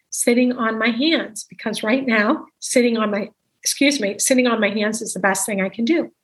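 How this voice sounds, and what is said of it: Failing, worn-out voice. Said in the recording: “I feel like I'm getting feverish. And my voice is going”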